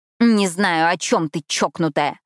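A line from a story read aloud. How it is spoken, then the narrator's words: Growl. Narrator (Russian): прорычала я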